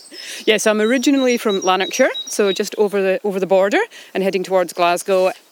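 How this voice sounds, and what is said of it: Scottish accent. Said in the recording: “You've got a lovely Scottish accent.”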